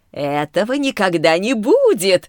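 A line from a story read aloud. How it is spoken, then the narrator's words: Guffawing chorus. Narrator (Russian): захохотали блуждающие огни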